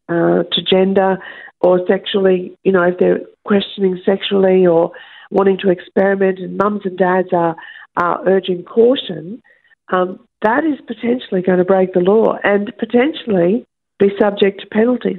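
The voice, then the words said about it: Croaky, hoarse voice. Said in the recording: “my voice is sounding a little bit croaky, isn't it? ... I think I've got a little bit of a funny throat.”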